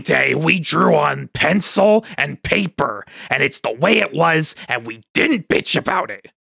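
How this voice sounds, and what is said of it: Imitates another person's voice. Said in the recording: “my impression of Taniguchi”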